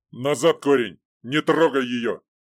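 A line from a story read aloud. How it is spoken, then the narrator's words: Leader barking curtly. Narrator (Russian): Коротко рявкнул главный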